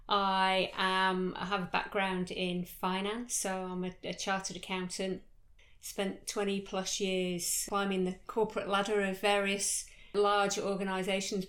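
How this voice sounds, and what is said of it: British accent. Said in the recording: “I started off life back in the UK, as you can tell from my accent.”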